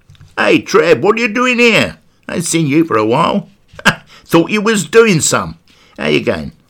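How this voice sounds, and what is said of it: Put-on Essex accent. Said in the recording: “an Essex accent”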